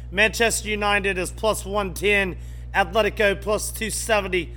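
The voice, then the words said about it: Poor put-on English accent. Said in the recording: “I don't do a good English accent.”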